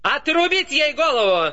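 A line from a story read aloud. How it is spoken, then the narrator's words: Shrieking. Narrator (Russian): Продолжала вопить королева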